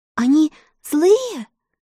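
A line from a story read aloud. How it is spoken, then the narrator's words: Girl's trembling question. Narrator (Russian): дрожащим голосом спросила девочка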